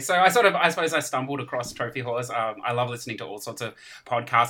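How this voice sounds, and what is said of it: Very distinct accent. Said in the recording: “you have a very, very distinct accent.”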